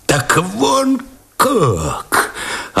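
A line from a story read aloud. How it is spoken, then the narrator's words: Sinking, faltering voice. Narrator (Russian): Опадающим голосом вдруг произнес Овчинников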